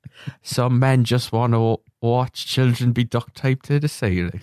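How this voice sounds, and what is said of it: Put-on English accent. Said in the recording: “Is that your English accent”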